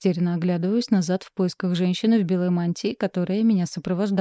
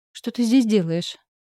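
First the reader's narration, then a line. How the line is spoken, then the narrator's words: Even voice, hidden unease. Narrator (Russian): Интересуюсь ровным голосом, хотя внутри мне не по себе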